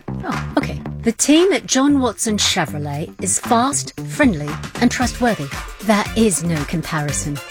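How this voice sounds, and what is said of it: Put-on English accent. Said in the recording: “That customer didn't have an English accent.”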